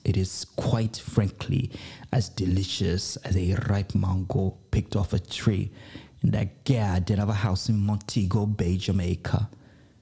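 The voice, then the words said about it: Put-on Caribbean accent. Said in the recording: “I don't know if that was a Trini accent. I don't know if that was a Jamaican accent.”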